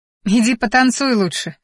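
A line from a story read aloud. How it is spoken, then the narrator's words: Short laugh. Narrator (Russian): хохотнула я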